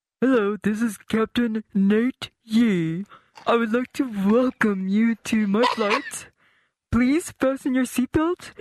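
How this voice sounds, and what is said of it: Woman imitating a male pilot's voice. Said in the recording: “me being a female impersonating a man”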